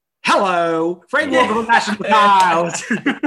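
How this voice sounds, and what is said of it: Radio advert announcer impression. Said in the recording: “I can do a good impression of a someone on a certain radio advert.”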